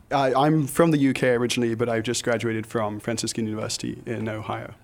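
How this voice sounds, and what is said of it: British accent with American tinge. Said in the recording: “sound American?... He's part Brit, part American now with this accent.”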